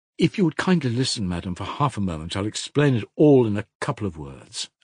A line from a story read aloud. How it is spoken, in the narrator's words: answered Perhotin firmly